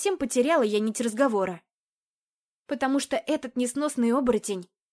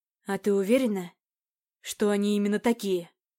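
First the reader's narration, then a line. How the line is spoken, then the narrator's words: Hoarse rasp. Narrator (Russian): прохрипел он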